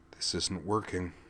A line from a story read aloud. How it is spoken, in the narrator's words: he mused under his breath